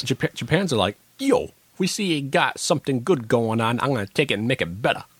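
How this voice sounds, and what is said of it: Put-on Brooklyn accent. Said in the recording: “I didn't do a typical Japanese accent. I did a Brooklyn accent,”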